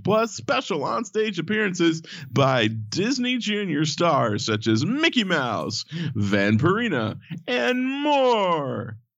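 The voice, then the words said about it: Announcer-style radio voice. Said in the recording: “I did the whole radio voice thing.”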